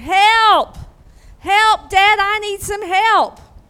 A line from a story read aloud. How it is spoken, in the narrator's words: I started hollering